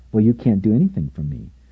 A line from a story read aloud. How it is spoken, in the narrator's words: she said kindly but firmly